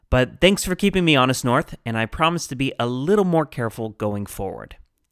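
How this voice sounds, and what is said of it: Western American accent. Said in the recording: “my particular branch of the Western American accent makes the words very close in pronunciation”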